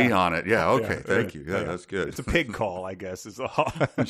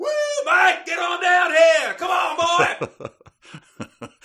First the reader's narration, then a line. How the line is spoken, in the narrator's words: you went for hollerin